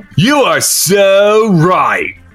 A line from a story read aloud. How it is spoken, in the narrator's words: called the sneering voice again